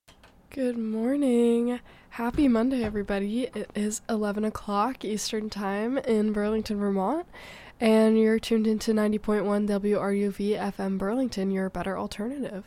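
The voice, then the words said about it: Sick, under-the-weather voice. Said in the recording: “If you can't tell by my voice, I'm feeling a little bit under the weather today”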